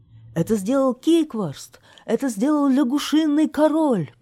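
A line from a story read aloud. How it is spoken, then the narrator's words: Shouted. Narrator (Russian): крикнул конюх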